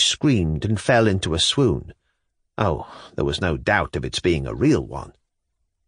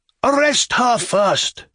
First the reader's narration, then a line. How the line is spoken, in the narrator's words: shouted her husband, threateningly